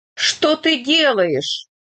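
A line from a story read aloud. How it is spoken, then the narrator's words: Astonished shout. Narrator (Russian): выкрикнул Иван, поражаясь тупой злобе Бояринцева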